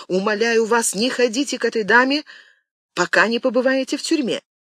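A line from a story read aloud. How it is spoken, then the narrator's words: Sudden exclamation. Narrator (Russian): Пелисон вдруг воскликнул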